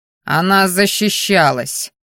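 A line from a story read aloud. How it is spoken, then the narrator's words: Growl. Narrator (Russian): рыкнул Керриан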